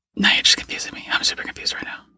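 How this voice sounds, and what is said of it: Whispering. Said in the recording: “do I get to use my real voice or do I have to keep whispering?”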